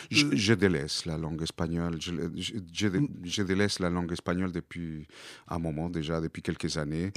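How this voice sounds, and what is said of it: Speaks French with foreign accent. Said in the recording (French): “J'ai choisi aussi la langue, malgré mon accent”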